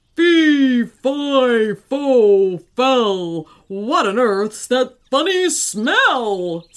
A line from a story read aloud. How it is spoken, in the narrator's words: said the giant in a big, booming voice